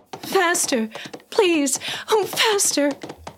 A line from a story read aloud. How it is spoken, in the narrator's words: she cried